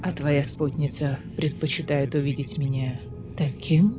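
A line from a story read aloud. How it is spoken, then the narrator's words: Whisper. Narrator (Russian): прошептал Лантис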